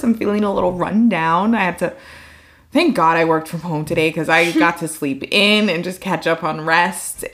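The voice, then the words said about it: Hoarse, partly lost voice. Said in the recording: “I kind of almost don't have my voice completely back yet... losing my voice when I go out... I'm feeling a little hoarse”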